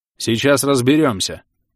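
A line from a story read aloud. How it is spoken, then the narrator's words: Stern reply. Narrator (Russian): пытаясь хоть чуточку спасти положение, строго ответил он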